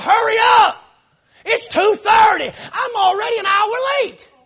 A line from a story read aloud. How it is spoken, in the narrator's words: yell out the window